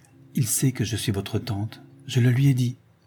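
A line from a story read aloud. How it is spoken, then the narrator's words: Old woman murmuring. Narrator (French): murmura la vieille Serena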